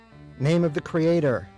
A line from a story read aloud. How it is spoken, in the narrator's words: shouted again